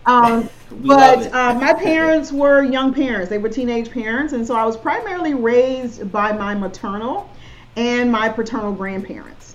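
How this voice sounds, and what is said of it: Southern US accent. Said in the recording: “I'm from South Georgia, so it's my Southern accent. I have a Southern accent”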